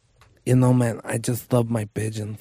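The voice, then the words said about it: Imitates another person's voice. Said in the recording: “I wish I could do that impression. ... He like talks like...”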